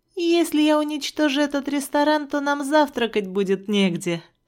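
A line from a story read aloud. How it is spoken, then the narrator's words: Laughing reply. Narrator (Russian): ответила я, смеясь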